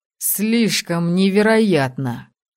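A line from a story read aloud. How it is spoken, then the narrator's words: Snorting. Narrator (Russian): хмыкнул Евар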